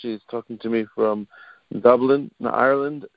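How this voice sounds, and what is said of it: Poor put-on Irish accent. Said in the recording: “I said Dublin, Ireland with a terrible accent.”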